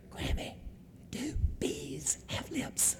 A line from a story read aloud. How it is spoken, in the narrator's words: whispers in her ear